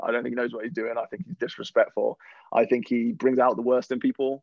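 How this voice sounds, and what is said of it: English Midlands accent. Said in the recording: “they hear an accent. You're not an American. ... You're from the Midlands in the UK.”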